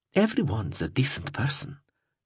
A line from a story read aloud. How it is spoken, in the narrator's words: replied softly